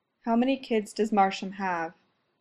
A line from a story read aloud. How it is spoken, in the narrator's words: asks, quietly